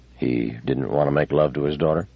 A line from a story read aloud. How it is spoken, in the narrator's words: Bailey stirred uneasily and said in a mumble